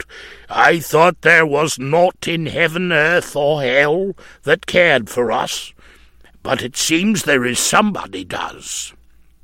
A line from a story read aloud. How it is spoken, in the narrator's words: A surly-looking man growled out